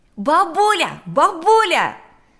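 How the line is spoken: Shouted. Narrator (Russian): закричал он с порога

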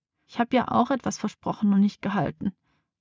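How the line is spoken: Wailing. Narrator (German): jammert

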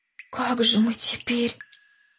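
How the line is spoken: Whispered. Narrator (Russian): Шепотом сказал Андрей

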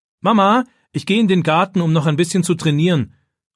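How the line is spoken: Calling toward another room. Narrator (German): ruft David in Richtung Küche

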